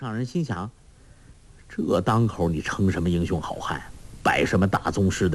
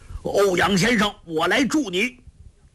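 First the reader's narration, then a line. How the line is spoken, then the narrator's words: Impatient shout. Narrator (Chinese): 灵智上人心中老大不耐，大叫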